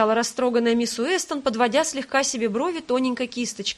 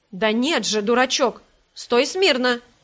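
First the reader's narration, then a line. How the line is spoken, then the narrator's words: Stern woman. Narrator (Russian): строго сказала Элиза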